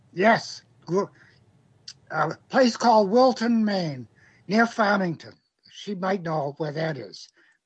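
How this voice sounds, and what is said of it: Maine accent. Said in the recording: “I can hear some of that Maine... I never lost my accent”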